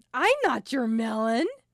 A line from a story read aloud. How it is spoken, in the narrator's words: hooting with laughter and telling